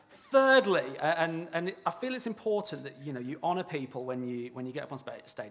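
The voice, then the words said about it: Birmingham English accent. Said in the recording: “I am from near Birmingham ... It's just my accent.”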